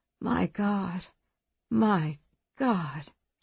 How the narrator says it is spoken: she murmured

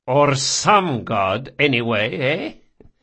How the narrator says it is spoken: Barsavi chuckled

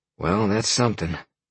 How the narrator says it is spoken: Sean sighed

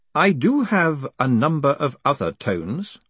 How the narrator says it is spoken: said Lord Vetinari calmly

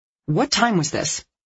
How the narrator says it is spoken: Dee Dee asked sharply

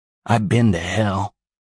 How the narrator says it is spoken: Ephraim said, his voice pitched at a Clint Eastwood growl

